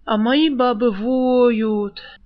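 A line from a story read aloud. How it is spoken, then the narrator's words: Sighing. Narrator (Russian): вздохнул Сурок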